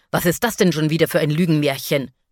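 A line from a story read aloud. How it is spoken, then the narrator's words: Father hissing angrily. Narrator (German): fauchte ihr Vater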